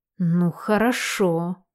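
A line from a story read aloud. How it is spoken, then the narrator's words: Through gritted teeth. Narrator (Russian): процедила сквозь зубы мама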